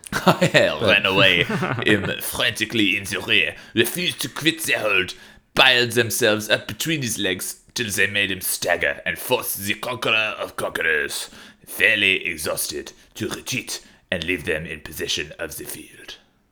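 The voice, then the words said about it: Put-on French accent. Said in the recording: “in a French accent ... Quite shit ... that could be a voiceover”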